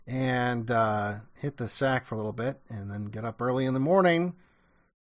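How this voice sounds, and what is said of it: Hoarse, fading voice. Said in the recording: “As you can hear, I'm kind of losing my voice now”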